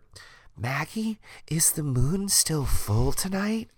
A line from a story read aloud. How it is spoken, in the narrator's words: I whispered